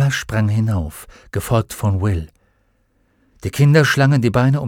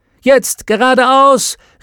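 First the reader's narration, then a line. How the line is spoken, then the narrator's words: Called out. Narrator (German): rief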